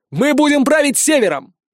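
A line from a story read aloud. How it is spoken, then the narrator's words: Yelling. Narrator (Russian): заорал я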